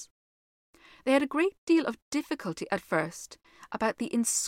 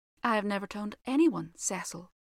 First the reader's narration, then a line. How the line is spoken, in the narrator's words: said Virginia gravely